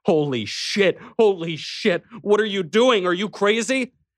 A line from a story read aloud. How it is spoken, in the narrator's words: screaming at him